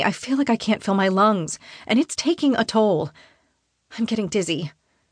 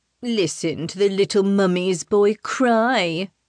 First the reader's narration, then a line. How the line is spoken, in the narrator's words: his cousin says, in a plummy accent